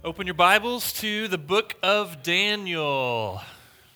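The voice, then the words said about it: Speaking louder to get attention. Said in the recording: “Trying to say that louder now, just to get your attention.”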